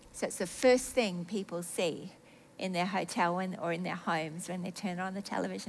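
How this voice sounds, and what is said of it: Australian accent. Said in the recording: “this Aussie accent”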